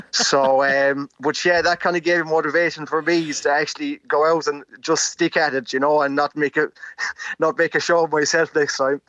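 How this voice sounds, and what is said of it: Mixed Irish regional accent. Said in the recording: “I'm picking up bits of Mayo and the Midlands and all over the place ... it's an All Ireland accent”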